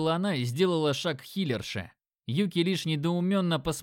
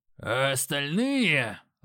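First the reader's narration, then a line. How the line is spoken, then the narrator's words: Growled. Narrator (Russian): Рыкнул Грок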